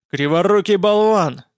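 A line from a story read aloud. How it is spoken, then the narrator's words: Yelling. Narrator (Russian): заорал крепыш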